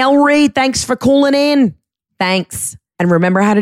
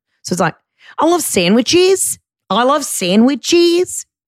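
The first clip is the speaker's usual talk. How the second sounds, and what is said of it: Australian accent, rising question intonation. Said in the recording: “how to do an Australian accent. Make every statement sound like a question... Make it go up at the end. Like you don't know if you love sandwiches.”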